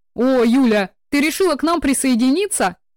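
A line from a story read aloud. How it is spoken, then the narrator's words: Cheerful exclamation. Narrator (Russian): Жизнерадостно воскликнул Сеня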